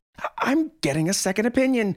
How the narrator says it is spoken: she screamed

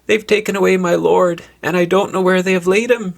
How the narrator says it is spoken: wails

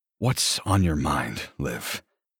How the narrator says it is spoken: I purr

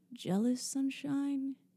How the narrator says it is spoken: He purred

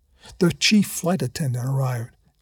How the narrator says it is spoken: Janice whispered in his ear

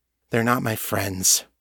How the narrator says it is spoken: Callie sighed

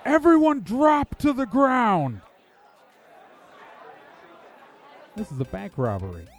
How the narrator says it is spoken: The man in front yells

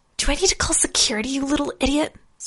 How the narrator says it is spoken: Leaning close, Tasha hissed

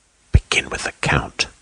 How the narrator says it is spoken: she whispered eagerly

